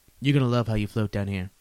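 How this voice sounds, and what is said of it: Understated impression of another person's voice. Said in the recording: “good Donald Trump impression? ... It was understated, but good. ... Definitely sufficient.”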